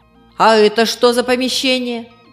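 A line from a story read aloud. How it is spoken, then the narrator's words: Stern questioning. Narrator (Russian): Так же строго продолжала она спрашивать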